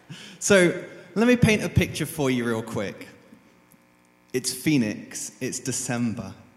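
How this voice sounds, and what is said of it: Speaks with a noticeable accent. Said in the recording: “I've got an accent, it's great.”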